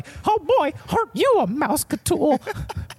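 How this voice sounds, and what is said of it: Cartoon mouse character voice. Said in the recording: “such a good Mickey Mouse impression”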